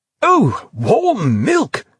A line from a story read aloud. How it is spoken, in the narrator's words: exclaimed the subtler clone foguishly, displaying a sort of second childhood delight